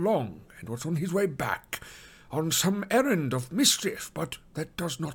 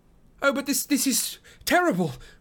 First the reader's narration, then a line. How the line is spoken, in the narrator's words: cried Frodo